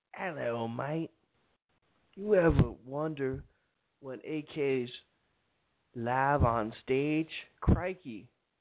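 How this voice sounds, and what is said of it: Poor put-on English accent. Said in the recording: “I really can't do an English accent besides, hello, mate. I can't pronounce words and stuff.”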